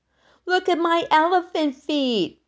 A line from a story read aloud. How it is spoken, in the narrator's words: she called out